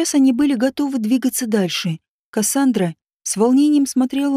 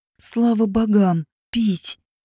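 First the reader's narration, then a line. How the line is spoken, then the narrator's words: Hoarse gasp. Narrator (Russian): Хрипло выдохнула Сиена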